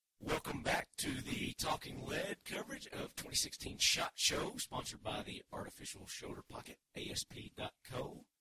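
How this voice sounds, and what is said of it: Strained, fading hoarse voice. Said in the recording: “I'm starting to lose my voice, but I still got it.”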